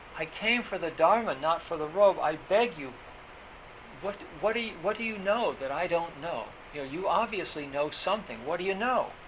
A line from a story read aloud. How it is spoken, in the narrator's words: Faltering, faltering and trembling, he cried out